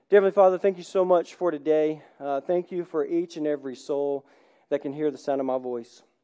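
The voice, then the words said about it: Congested, cracking voice. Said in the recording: “my sinuses went haywire ... my voice is just kind of coming back a little bit. So if you hear it crack”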